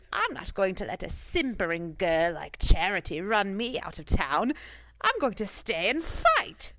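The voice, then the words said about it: Performs a character's voice. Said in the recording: “do the voice”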